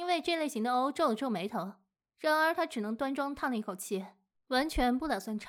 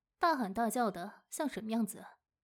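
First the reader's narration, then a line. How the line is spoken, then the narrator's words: Soft reproach. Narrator (Chinese): 母亲轻声责备道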